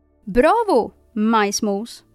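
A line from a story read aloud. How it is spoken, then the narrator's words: Small disembodied voice calling. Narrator (Swedish): ropade samma lilla röst som ingen visste varifrån den kom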